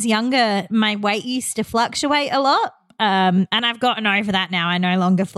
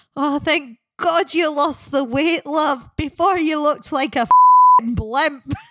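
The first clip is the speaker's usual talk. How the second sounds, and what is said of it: Bad Scottish accent. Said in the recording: “bad Scottish accents”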